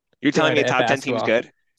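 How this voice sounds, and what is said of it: Impression of a co-host's voice. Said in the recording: “That was my best Maddie impersonation. That's my best Maddie impersonation I've ever done.”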